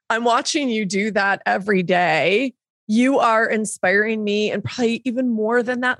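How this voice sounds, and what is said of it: Teary, emotional voice. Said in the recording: “getting teary”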